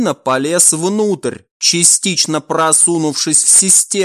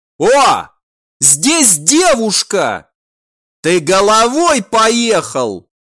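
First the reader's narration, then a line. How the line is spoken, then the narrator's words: Guard's sudden shout. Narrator (Russian): частично залезший в шахту вентиляции охранник внезапно закричал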